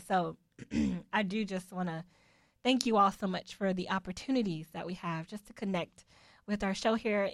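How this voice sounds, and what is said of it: Rough voice needing throat clearing. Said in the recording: “my voice is a little bit crazy today, so I keep having to clear it”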